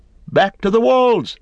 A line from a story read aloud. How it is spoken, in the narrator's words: they cried